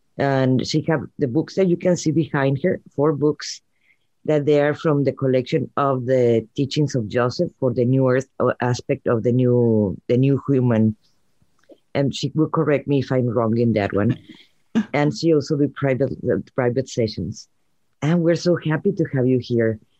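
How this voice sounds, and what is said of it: Cute-sounding foreign accent. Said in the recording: “I love your accent, first of all. It's so cute. You sound so cute.”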